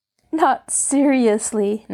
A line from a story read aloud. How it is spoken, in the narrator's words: Nancy laughed